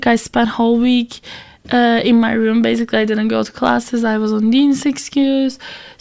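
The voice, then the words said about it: Voice rough from recent illness. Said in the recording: “I'm sorry about my voice. I know my voice is not good in general ... I was sick last week ... I'm just recovering from that, and that's why my voice is not that pleasing right now.”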